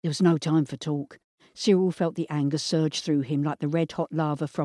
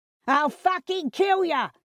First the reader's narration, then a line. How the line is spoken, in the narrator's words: he yelled